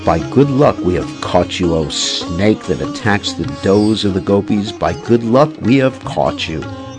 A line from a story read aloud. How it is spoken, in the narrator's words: In a menacing tone, she says